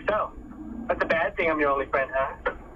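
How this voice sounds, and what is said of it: Imitates another person's voice. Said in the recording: “uncanny impersonation”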